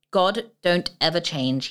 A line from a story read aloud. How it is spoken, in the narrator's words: said